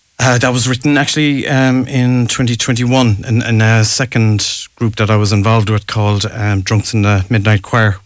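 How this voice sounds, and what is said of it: Cork Irish accent. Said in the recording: “you sound like Mr. Spillane, so you do. I can see the Cork accent.”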